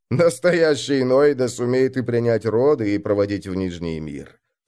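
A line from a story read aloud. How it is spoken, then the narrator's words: Plain. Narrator (Russian): сказал он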